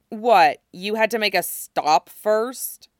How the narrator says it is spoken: Xavier asked, sneering at him

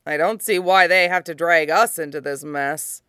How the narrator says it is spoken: Han grumbled

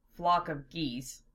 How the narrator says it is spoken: Lena muttered

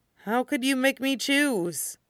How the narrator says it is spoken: Shota said with a miserable sigh, feeling abruptly nauseated

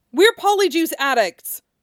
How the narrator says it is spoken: Harry shouted

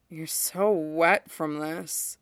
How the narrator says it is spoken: Hunk murmured, voice awed

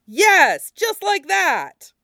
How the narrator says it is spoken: Made faint by distance, he hears their fearless leader laugh and shout

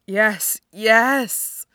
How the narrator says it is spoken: he moans

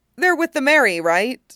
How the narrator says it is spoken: Usopp says, in a burst of confidence

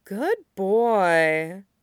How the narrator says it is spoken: Allura murmured

